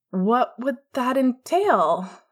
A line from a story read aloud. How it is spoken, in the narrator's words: James asked hesitantly